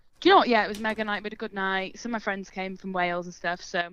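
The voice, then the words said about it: Welsh accent. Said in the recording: “You've got the Welsh twang on you.”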